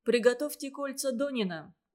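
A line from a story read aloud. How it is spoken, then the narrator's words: Plain. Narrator (Russian): говорит Решетов сестре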